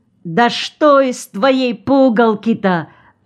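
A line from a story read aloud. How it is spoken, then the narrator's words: Shouted. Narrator (Russian): Вдруг закричал каюр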